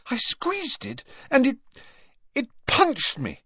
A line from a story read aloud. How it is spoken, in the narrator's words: she gasped